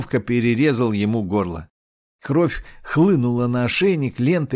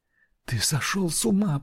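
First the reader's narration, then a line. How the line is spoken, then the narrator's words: Whisper. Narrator (Russian): прошептала Грота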